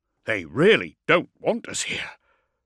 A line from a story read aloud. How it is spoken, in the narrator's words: Preko grunted